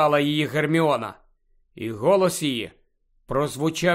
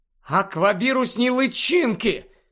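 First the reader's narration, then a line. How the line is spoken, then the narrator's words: Excited exclamation. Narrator (Ukrainian): схвильовано вигукнула Луна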